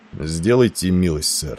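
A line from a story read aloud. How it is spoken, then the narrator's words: Calm. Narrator (Russian): спокойно произнес он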